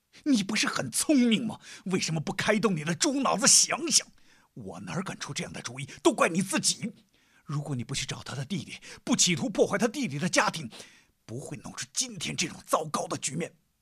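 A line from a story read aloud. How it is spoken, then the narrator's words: Suppressed growl. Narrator (Chinese): 杨丽压低声音吼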